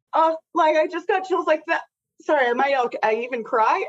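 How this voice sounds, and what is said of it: Emotional, teary voice. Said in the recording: “you can hear me getting emotional ... I've never made anyone cry in this podcast”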